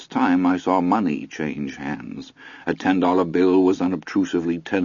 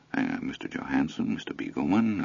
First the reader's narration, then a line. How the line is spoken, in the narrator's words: a quiet, well-bred murmur